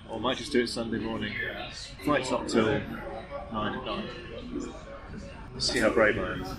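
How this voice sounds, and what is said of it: British accent. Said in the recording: “you have your British accent going for you”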